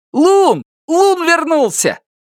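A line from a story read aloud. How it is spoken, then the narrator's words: Shouted. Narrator (Russian): закричал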